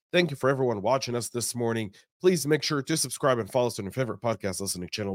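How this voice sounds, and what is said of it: Slightly off, unwell-sounding voice. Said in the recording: “My voice is a little off. I've been a little ill.”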